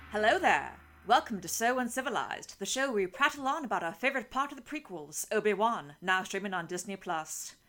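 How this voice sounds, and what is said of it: Uptight, formal Obi-Wan character voice. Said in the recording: “your Obi-Wan Kenobi voice sound exactly like your Steve Bonnet voice ... the accent isn't there ... much more uptight and formal”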